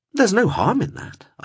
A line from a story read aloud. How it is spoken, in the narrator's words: added brightly